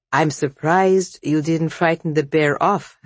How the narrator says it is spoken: said the old woman dryly

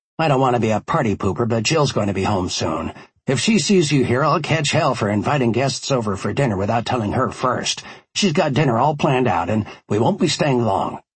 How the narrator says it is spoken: Barack said

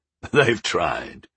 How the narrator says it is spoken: the ranger chuckled

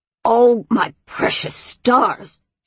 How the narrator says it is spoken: she said in her craggy, barky, leafy voice, for she had not yet untransformed

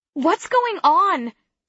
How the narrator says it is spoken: Someone shouts

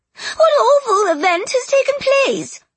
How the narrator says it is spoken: She cried

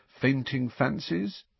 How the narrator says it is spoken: Harry suggested quietly

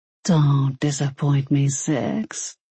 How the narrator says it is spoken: he said quietly

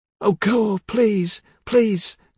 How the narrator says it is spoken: cried Hartley

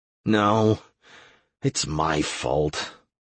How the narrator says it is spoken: I replied grimly

